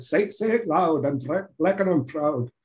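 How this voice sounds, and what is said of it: Bad put-on Irish brogue. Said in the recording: “I'll say in my bad brogue ... That's more Scottish, isn't it? ... can't do it.”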